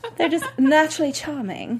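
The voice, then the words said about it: Put-on British accent. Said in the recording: “That was my British accent,”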